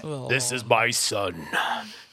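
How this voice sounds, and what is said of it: Deep dramatic movie-trailer voice. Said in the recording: “total trailer voice”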